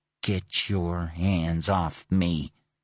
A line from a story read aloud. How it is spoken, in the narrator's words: snarled, his body trembling